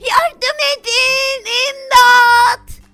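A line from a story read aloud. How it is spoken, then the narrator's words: Shouting. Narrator (Turkish): diye bağırdı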